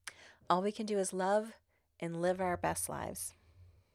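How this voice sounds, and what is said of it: Choked-up, emotional voice. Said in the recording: “Oh, gosh, I'm getting choked up.”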